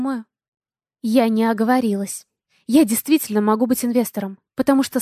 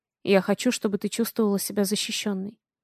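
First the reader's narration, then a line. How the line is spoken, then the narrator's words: Plain. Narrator (Russian): сказал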